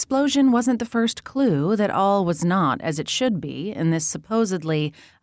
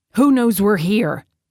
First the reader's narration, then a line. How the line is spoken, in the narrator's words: came a pissed-off growl over her comm unit